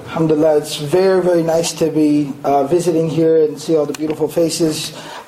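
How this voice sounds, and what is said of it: Raspy, hoarse voice. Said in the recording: “Please excuse a little bit the raspiness of my voice. I've been losing my voice a little bit ... It's a sore throat lozenge, and so I'm just trying to help the voice recover”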